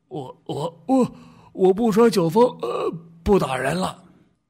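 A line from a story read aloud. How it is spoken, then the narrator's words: Panting, repeated drunk pleading. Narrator (Chinese): 醉汉 酒醒了一大半 喘着粗气连声地说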